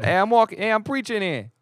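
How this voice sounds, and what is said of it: Poor put-on New York accent. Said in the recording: “It's a terrible accent, too. I'm sorry to our listeners in New York. ... you came in with the New Yorkish.”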